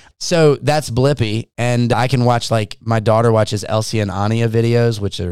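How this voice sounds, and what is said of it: Usual voice. Nothing is said of it.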